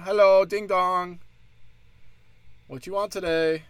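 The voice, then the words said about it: Put-on Asian accent. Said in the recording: “I'm just doing an Asian accent for everything now.”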